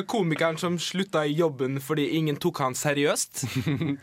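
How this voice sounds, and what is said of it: Parodied Molde dialect, fairly good. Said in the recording (Norwegian): “På Molde-dialekt, altså ... var ikke verst Molde-dialekt, da. Det var parodi”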